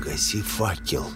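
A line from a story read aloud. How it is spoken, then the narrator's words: Whisper. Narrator (Russian): прошептал я Живоглоту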